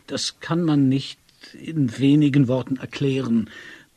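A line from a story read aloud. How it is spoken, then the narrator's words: Stuttering. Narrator (German): begann er stotternd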